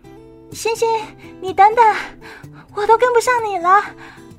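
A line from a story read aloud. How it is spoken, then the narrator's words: Distant girl calling. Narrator (Chinese): 有人远远的听到一个女孩喊着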